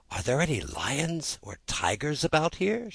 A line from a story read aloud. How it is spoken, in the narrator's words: she asked timidly